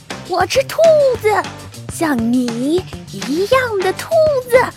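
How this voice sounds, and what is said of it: Harsh, grating character voice. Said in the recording (Chinese): “他用刺耳的声音说”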